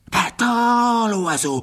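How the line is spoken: Sudden exclamation. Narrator (French): s'écria soudain la voix de Jédusor

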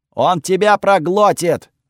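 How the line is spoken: Yelling. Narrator (Russian): орал Готфред

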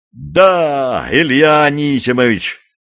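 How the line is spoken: Joyful shout. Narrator (Russian): радостно закричал судовой помощник

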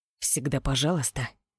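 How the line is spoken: Through gritted teeth. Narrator (Russian): процедил Роу

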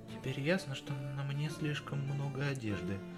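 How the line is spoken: Whisper close to ear. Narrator (Russian): прошептала Дел, почти коснувшись губами моего уха

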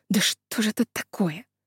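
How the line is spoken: Muttered. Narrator (Russian): Она пробормотала

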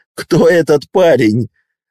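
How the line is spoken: Laughing. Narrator (Russian): Смеясь, Гарри

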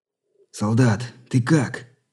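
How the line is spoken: Near-whispered question. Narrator (Russian): едва не шепотом спросил Кондратьев

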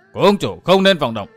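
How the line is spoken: Sudden sharp shout. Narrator (Vietnamese): bỗng có tiếng quát

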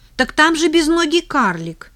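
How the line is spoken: Shout. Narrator (Russian): закричал Кирюша

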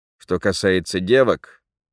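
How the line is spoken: Gloomy. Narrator (Russian): мрачно продолжил Никитин

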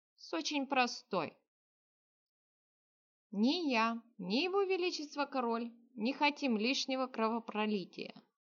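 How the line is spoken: Calm answer. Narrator (Russian): спокойно ответил Игмалионец

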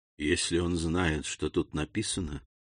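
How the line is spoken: Whispered. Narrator (Russian): прошептал он

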